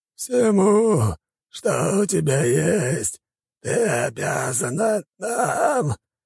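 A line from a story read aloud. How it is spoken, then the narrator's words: Dying demon's whimper. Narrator (Russian): проскулил умирающий демон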